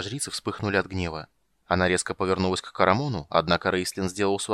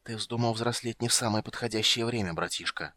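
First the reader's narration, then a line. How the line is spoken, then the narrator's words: Whispered. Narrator (Russian): прошептал маг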